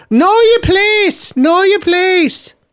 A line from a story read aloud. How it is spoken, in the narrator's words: parents are shouting at kids all the time, saying